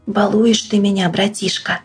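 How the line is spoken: Happy whisper. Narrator (Russian): счастливо шепнул Лаврентьев

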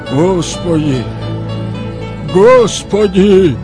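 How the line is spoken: Loud, said twice. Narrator (Russian): Михаил громко произнес дважды

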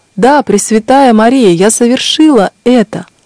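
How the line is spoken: Loud exclamation. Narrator (Russian): Тогда вернулся к ней голос, и она громко воскликнула

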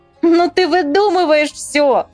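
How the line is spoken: Laughing. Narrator (Russian): засмеялась Ира

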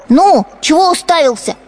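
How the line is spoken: Boy shouting. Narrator (Russian): кричал поросенку хозяйский сын

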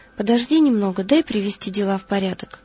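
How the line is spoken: Calm reply. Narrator (Russian): Лаврентий спокойно отвечал

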